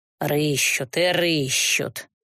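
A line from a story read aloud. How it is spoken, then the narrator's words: Displeased muttering woman. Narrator (Russian): недовольно пробормотала торговка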